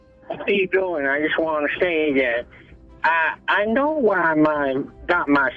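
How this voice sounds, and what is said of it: Imitates another person's voice. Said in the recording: “This is a little close to Joe Pesci. This is a little close to the real Joe Pesci.”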